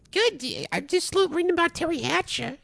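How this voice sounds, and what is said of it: Imitates another person's voice. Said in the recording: “my Jay Leno impression”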